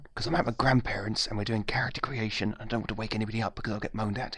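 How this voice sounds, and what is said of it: Whispering. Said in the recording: “why I'm whispering ... So I'm going to whisper.”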